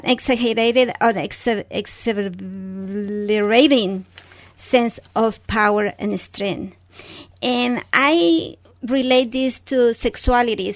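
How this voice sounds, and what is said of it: Speaks English with an accent. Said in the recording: “I'm sorry for my accent.”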